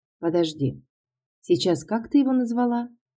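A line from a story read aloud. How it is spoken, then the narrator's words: Chuckling. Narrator (Russian): Он хохотнул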